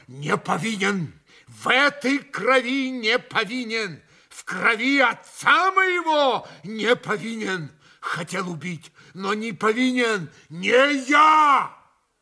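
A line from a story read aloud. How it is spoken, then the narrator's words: Shouted. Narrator (Russian): он успел прокричать это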